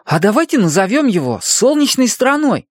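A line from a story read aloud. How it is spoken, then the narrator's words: Excited exclamation. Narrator (Russian): воскликнул Хуахуа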